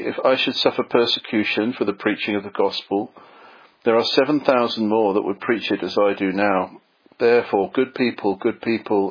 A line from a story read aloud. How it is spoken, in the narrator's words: he repeated these words several times in a sorrowful voice